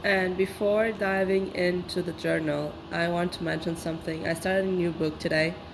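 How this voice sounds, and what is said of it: Rough voice from being sick. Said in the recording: “My voice my voice is terrible today. I'm unfortunately sick.”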